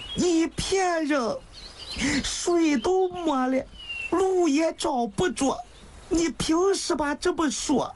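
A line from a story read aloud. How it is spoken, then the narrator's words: Tearful voice. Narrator (Chinese): 湘玉一开口还是哭腔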